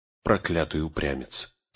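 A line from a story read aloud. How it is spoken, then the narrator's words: Dejected mutter. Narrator (Russian): сокрушенно пробормотал Леголас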